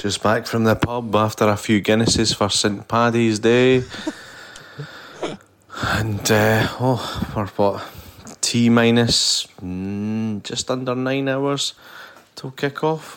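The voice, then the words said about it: Scottish accent. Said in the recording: “Scottish accent, I reckon.”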